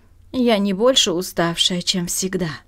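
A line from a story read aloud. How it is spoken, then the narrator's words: Dry reply. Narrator (Russian): сухо ответила миссис Джимсон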